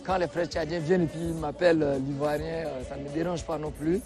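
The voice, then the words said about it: Chadian French accent. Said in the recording (French): “de par mon accent, on sait que c'est un Tchadien”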